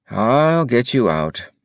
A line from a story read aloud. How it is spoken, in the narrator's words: said Duncan wearily